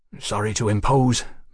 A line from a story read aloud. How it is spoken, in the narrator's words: Mallory muttered